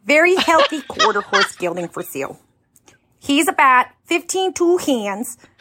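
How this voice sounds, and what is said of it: Deliberately bad Minnesotan accent. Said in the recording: “I'm going to do my hand at a really bad... Minnesotan accent.”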